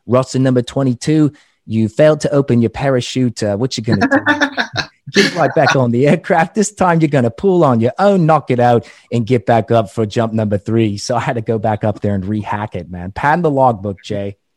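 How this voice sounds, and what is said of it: Poor put-on British accent. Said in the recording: “my crappy British accent”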